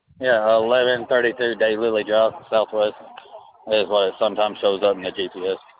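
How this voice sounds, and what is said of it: Kentucky accent. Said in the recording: “I have an accent. I'm from Kentucky originally.”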